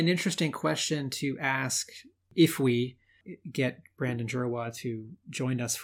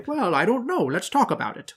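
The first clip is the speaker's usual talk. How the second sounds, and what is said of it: Imitates another person's voice. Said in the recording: “my Mark Powers impression”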